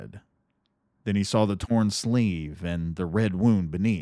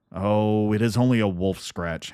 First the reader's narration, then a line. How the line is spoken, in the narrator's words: Harold answered